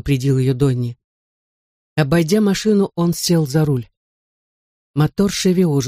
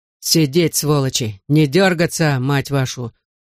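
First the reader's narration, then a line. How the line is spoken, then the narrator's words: Growl. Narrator (Russian): прорычал Донни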